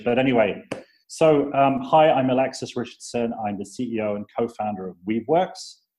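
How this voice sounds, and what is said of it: British accent. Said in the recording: “You may notice from my accent that I'm British”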